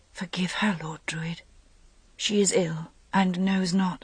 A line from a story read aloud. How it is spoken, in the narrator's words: Guinevere heard her whisper